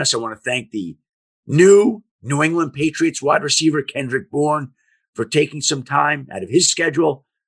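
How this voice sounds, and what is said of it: Hoarse, fading voice. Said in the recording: “as I lose my voice. I've been sick the last 4 or 5 days. I've had a cold”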